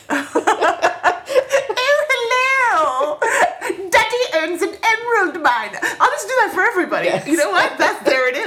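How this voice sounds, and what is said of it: Put-on comedic character accent. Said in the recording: “your Duke Baloney accent”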